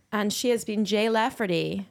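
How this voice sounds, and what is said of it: Put-on American accent. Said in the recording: “American accent”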